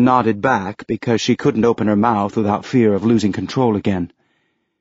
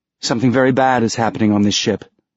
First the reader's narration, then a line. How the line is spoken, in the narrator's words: Tilly said